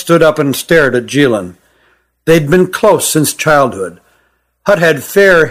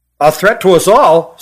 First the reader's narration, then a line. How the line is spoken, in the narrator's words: said Hutt loudly